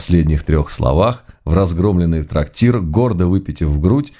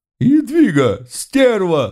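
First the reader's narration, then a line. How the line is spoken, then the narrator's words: Offended wail. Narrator (Russian): взвыла обиженная чертовка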